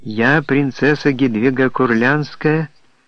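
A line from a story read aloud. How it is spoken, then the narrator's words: Bright, ringing voice. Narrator (Russian): проговорила бодрым и звонким голосом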